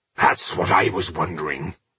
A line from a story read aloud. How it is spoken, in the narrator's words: grunted Boindil